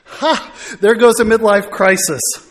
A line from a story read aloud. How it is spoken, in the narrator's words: Melissa chuckles and comments